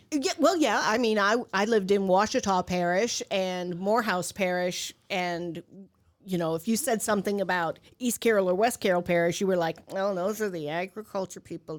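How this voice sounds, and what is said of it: Heavy Southern US accent. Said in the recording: “you still have a very heavy accent. You still love New Orleans. ... It's a heavy accent. ... It's worse when she's down south.”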